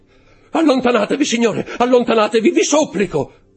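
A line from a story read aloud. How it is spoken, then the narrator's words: Shouting. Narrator (Italian): gridò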